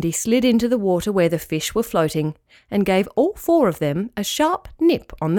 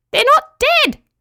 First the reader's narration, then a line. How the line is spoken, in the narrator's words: squeaked Petruchio